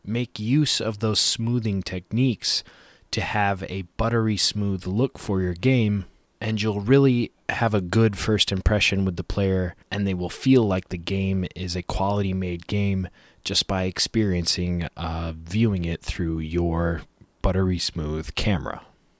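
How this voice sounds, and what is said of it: Hoarse, strained voice. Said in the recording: “You might be able to tell I'm losing my voice”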